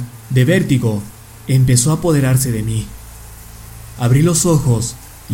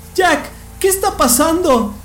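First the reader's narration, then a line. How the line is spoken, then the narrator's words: Exclaimed. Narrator (Spanish): exclamó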